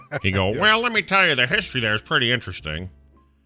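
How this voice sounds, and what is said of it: Imitates another person's voice. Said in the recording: “That was my Gygax impression.”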